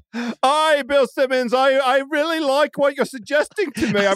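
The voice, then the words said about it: Ben Simmons impression, no Australian accent. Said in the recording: “Ben Simmons, what do you think of that plan? ... I think Australian really Ben Simmons accent. ... He doesn't have an Australian accent. I can't do it.”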